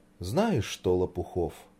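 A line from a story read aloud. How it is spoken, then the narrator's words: Sighing. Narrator (Russian): вздохнула Даша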